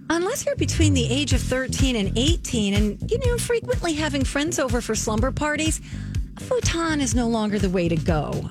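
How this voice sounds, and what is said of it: Soft, sweet, nice reading voice. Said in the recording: “I'm going to read it in a nice voice.”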